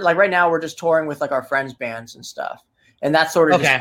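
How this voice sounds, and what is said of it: New Jersey accent. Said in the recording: “you can tell by your accent that you're from Jersey.”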